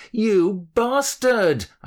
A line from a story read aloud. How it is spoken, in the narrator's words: I shouted at my phone, blaming the messenger